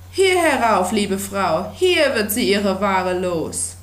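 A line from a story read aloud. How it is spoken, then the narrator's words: Called out. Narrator (German): Er rief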